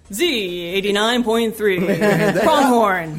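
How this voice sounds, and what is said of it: Radio announcer voice. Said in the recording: “I need to work on my radio announcer voice.”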